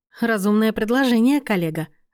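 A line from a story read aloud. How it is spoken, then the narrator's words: Laughing. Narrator (Russian): рассмеялась Лена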